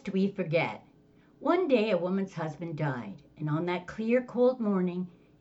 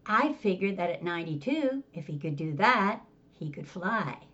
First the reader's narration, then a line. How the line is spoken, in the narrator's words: began coolly